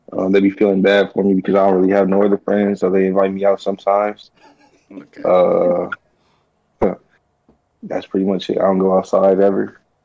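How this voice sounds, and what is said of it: Depressed, downcast delivery. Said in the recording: “why you sound so depressed”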